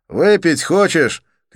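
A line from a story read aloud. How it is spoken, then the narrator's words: Shout over engine. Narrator (Russian): крикнул я Олегу, перекрывая шум мотора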